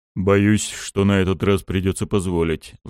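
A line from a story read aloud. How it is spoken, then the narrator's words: Sighing. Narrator (Russian): вздохнул Лаки Ларус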